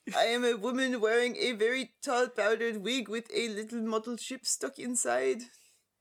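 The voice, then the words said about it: Put-on French accent. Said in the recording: “I am always happy to bring out my French accent for you.”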